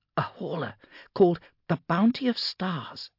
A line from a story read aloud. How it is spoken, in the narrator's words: said Claudia in a sharp whisper